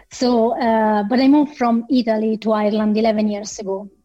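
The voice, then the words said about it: Italian accent in English. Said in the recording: “as you can make a call from my accent, I'm extremely still very Italian. So my English is not proper English yet”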